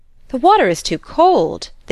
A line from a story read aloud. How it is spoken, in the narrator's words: they both exclaimed